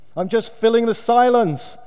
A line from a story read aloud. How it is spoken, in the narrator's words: he announced loudly